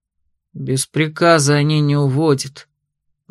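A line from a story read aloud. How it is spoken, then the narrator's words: Gloomy sigh. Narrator (Russian): мрачно вздохнул другой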